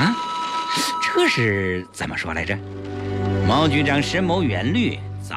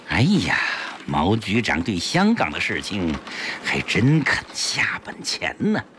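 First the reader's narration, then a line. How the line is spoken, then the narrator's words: Meaningful sigh. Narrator (Chinese): 江世飞暗含深意地叹道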